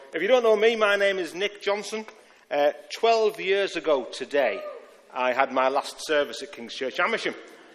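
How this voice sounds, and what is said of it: Speaks with a noticeable accent. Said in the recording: “I'll give you a moment to let the accent settle in.”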